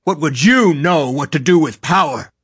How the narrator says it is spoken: snapped

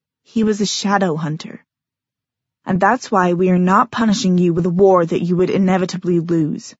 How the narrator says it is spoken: said coldly

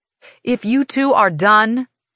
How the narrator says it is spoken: Titan says loudly

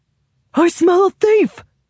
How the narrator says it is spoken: he shouts

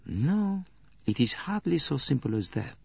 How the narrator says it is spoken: he murmured again

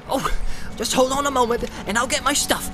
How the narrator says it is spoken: cried Sam eagerly

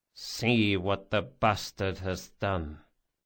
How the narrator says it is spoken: Barsavi said softly

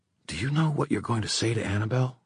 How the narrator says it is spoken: Emma whispered

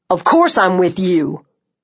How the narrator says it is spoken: he said sharply, looking pissed that I'd suggested otherwise

